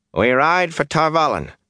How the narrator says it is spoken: he snapped

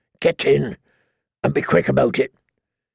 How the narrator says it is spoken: muttered

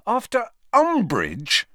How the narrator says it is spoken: said Harry angrily

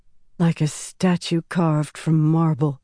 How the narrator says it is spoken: Berylaine whispered

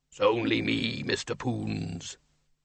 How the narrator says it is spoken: A deep, rumbling, but very diffident voice said

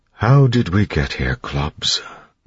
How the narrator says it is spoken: Breeze asked quietly

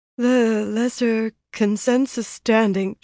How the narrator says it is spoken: announced in an unsteady voice

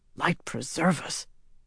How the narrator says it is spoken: one of the guards whispered

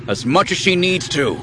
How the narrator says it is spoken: Han growled, without meaning to

